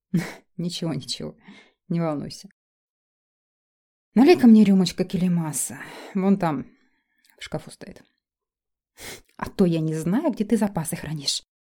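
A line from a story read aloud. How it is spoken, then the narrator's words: Snort. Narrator (Russian): фыркнула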